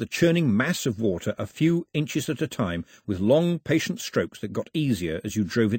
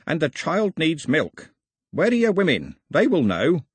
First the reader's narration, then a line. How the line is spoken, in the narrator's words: croaked the old man